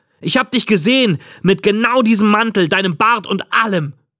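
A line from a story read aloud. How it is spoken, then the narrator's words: Called out. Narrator (German): rief ich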